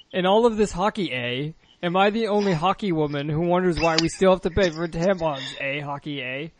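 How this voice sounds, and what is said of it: Put-on Canadian accent. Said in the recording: “she has a Canadian accent”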